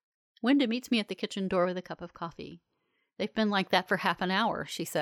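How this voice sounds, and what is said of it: Usual voice. Nothing is said of it.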